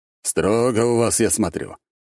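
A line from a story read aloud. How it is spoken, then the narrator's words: Wry snort. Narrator (Russian): хмыкнул Лажон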